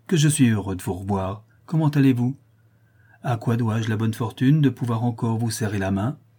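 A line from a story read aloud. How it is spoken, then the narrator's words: Exclaimed. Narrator (French): s'écria-t-il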